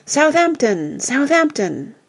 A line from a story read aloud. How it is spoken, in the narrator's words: with one voice, the whole assembly cried out